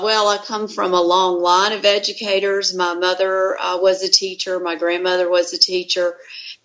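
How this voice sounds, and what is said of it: North Carolina Southern accent. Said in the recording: “she's from North Carolina, so her accent is nice on the ears ... It's not like the Chicago Midwestern accent”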